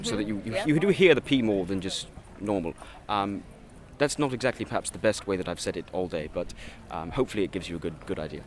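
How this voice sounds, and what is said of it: Good British accent, enunciated. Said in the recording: “In my British accent, I try to enunciate the P ... Are you from Britain? ... My accent? ... No, it's really good.”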